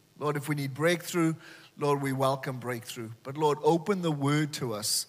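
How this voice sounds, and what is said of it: Welsh accent. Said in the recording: “as you can tell from my accent, ... I'm from Wales. ... I'm from the old South Wales”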